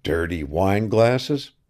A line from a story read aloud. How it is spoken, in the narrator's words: he muttered